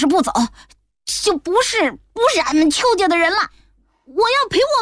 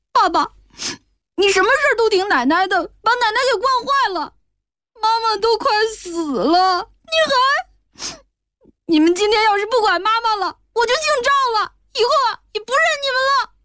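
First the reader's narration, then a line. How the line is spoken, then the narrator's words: Child crying. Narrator (Chinese): 小孩子……哭道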